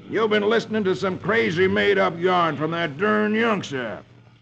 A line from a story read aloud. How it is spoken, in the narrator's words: Captain Clune snorts